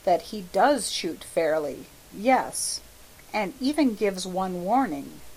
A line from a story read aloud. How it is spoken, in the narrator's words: said Hastings quietly